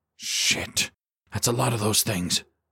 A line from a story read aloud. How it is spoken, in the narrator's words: Kowalski muttered under his breath